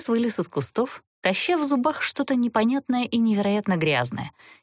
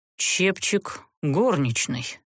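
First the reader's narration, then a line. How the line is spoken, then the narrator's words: Serpent's muffled exhale. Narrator (Russian): глухо выдохнул змей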